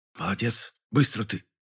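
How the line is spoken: Quiet praise. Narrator (Russian): тихо похвалила она

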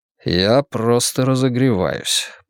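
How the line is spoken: Muttered reply. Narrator (Russian): пробормотал я в ответ

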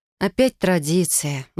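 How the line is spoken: Sigh. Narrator (Russian): вздохнула я

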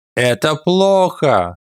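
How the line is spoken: Shouted. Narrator (Russian): крикнулся с его места Байян

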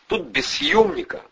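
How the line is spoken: Contemptuous snort, elderly man. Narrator (Russian): пожилой презрительно фыркнул

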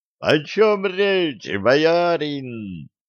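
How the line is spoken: Ecstatic group howl. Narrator (Russian): Восторженно взвыла его свита

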